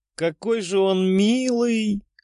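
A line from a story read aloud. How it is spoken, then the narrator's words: Laughing. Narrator (Russian): смеялась Ольга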